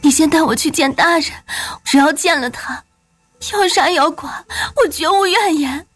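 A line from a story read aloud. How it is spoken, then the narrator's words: Pleading. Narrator (Chinese): 惠游几乎是哀求的道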